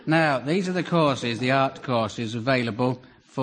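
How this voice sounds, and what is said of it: Usual voice. Nothing is said of it.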